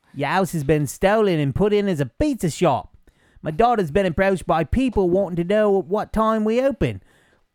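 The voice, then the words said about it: Mediocre put-on Australian accent. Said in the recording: “I got to do my mediocre Australian accent.”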